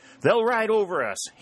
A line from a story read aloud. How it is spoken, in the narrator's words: he shouted to Sherburne